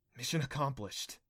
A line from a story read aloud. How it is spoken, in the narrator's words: she mumbled, hazel eyes wide with fear